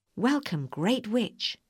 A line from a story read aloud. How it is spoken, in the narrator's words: said the woman